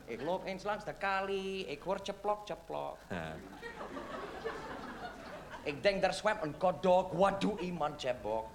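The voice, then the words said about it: Yiddish-accented Dutch. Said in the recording (Dutch): “Ik zal met mijn accent praten, ja? Ik praat met mijn accent ... Oh, je bent Jiddisch.”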